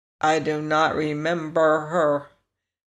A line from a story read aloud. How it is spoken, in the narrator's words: said Tick-Tock